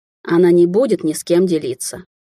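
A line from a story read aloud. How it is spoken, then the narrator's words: Tired. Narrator (Russian): устало отозвался Амбер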